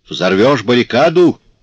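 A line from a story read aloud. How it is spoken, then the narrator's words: Sergeant shouting. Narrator (Russian): крикнул сержант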